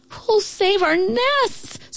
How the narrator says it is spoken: screeched the birds

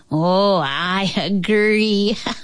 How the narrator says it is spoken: he laughed

